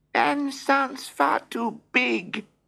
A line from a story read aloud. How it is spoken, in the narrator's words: squeaked Mouse